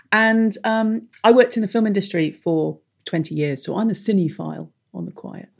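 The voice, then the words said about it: English accent. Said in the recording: “I have an English accent”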